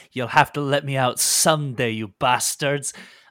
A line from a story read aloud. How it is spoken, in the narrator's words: she snaps at you and says